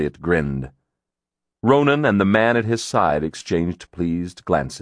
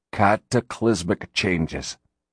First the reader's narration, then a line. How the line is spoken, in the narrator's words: Ronan murmured